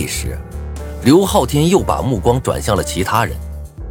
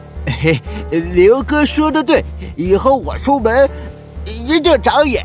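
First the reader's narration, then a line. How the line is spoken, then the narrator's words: Fawning laugh. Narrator (Chinese): 献媚的笑道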